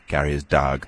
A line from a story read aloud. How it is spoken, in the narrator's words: said